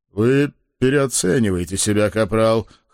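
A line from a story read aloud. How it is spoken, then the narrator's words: Amused snort. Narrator (Russian): хмыкнул шеф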